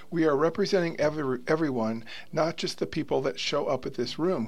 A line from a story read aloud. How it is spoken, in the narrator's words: Kearns said